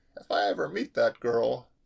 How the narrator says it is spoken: Molly laughed

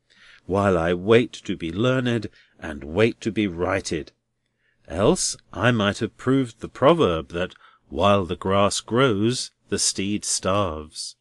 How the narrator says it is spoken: sighed Neville, half wearily and half cheerily

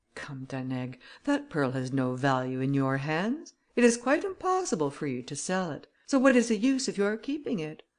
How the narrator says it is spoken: Then Grimaudan added in a milder tone

